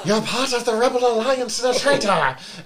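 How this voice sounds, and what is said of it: Heavy Scottish accent, yelling. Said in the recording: “it's like this heavy Scottish accent. Going,”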